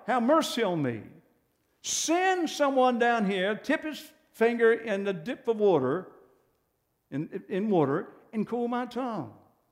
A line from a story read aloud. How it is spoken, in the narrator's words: he's cried out